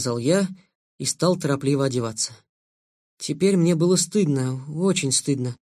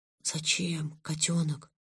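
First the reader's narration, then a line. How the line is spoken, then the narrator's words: Whisper. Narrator (Russian): прошептал я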